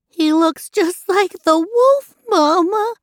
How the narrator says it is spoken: One of the kids whimpered

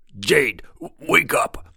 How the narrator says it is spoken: bellowed the troll

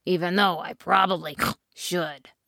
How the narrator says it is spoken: snorted the pig

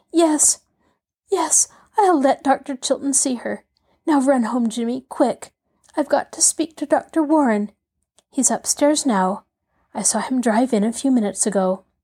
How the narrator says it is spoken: she said brokenly

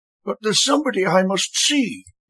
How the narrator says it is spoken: the electrician whined

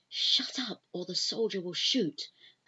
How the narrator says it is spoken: She hisses into his ear

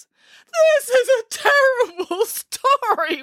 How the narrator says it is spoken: wailed Boris

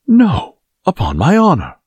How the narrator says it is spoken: cried His Majesty's guardsman

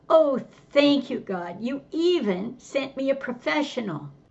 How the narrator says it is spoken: The woman sobbing

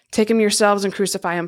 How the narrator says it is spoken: Pilate said

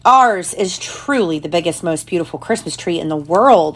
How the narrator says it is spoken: exclaimed little Nina and Letley

